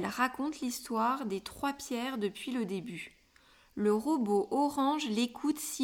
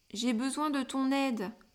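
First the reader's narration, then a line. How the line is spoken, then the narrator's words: Pleading. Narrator (French): implore le personnage bleu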